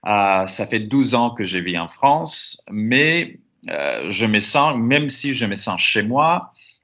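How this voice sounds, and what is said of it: Greek accent speaking French. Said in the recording (French): “moi aussi je suis grec, peut-être c'est clair de mon accent”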